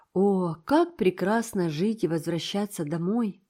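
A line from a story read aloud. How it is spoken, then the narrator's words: Sighing. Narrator (Russian): вздохнула Энн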